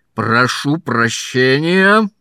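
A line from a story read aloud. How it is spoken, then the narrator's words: Roaring. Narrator (Russian): взревел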